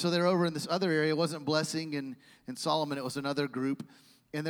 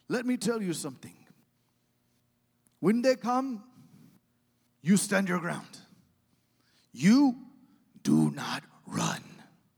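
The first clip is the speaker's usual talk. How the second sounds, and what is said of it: Imitated African accent. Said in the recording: “In his African accent”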